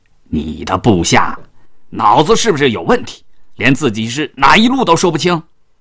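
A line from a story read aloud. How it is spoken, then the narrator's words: Furious shouting. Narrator (Chinese): 这刘管带气急了，就喊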